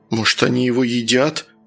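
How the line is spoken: Frightened question. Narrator (Russian): испуганно спросил Саня

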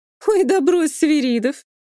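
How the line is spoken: Sudden loud laughter. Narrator (Russian): Оксана резко расхохоталась

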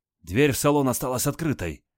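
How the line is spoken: Joyful. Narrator (Russian): радостно сообщил Адольф

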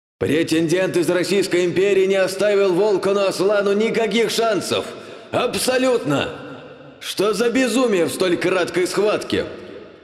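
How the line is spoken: Excited joyful yelling. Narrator (Russian): он вновь заорал с волнительной радостью

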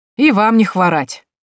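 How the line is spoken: Sarcastic reply. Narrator (Russian): язвительно ответил купец

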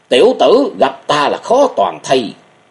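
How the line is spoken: Old man shouting. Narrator (Vietnamese): tiếng quát của một lão nhân

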